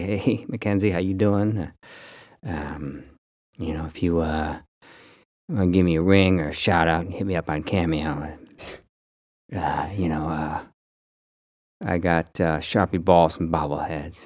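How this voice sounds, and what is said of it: Low put-on sexy voice. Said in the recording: “that hurt my voice talking that low ... my sexy voice”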